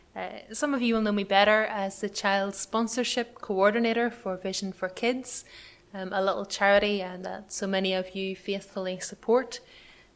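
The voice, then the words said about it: Northern Irish accent. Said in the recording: “I'm from Northern Ireland, as you can probably work out from the accent”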